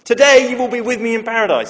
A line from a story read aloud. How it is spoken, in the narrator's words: he says